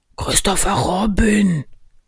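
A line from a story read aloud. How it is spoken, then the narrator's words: Loud whisper. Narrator (German): flüsterte er laut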